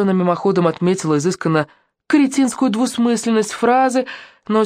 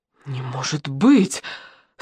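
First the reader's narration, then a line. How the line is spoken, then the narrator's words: Breathless gasp. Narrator (Russian): снова выдохнула Наташка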